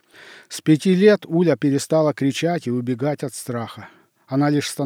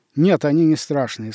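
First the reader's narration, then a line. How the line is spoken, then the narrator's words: Plain. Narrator (Russian): сказал приемный отец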